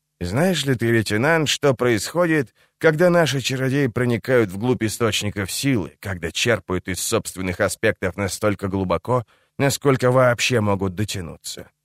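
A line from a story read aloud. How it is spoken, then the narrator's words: Quiet question. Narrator (Russian): спросил негромко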